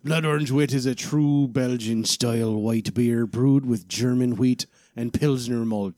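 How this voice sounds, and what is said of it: Pirate character voice. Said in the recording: “read the little description here in a pirate voice”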